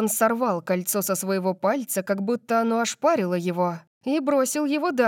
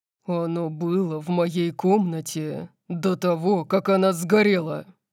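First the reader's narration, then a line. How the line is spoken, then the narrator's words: Growled. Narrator (Russian): прорычал Дариус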